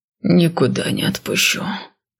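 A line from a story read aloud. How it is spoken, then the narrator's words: Breathed out. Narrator (Russian): выдохнул я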